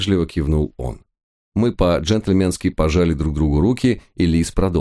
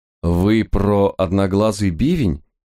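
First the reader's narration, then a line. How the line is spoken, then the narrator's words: Uncertain chuckle. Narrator (Russian): неуверенно хмыкнул я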